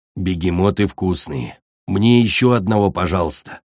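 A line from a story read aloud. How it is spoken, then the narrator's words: Sleepy mumbling. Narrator (Russian): пробормотал, во сне, земляной дракончик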